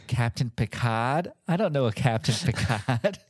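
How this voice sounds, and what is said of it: Mimics a character's horrible accent. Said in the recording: “with that horrible accent.”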